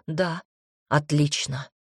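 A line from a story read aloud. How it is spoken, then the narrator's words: Hoarse. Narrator (Russian): произнесла осипшим голосом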